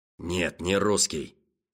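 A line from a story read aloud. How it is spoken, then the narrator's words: Angry. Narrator (Russian): сердито отозвался Мюкке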